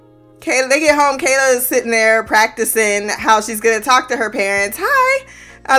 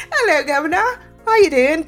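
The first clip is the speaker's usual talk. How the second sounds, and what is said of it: Put-on British accent. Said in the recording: “Don't know why I'm talking with British accent. ... Not British at all.”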